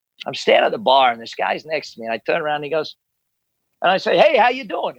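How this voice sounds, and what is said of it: Australian accent. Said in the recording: “I'm Australian ... the accent give it away”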